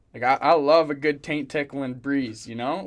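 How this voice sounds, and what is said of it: Southern American accent. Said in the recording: “Why is he automatically Southern?... I didn't think I said that with an accent.”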